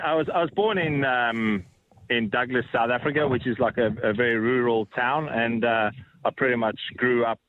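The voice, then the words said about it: South African accent with Australian tinge. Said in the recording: “born in South Africa ... accent that you've still got, although there's a bit of Aussie infiltrating you in there”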